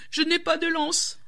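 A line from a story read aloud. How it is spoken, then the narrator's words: Whimpering snake. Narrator (French): pleurnicha le serpent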